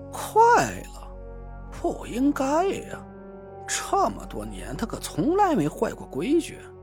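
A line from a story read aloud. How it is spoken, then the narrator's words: Frowning mutter. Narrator (Chinese): 梧桐皱着眉嘟囔了一句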